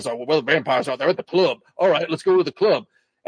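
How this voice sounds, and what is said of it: Robert Downey Jr. Tropic Thunder impression. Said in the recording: “Robert Downey Jr. from Tropic. ... you're really towing the line on that impression.”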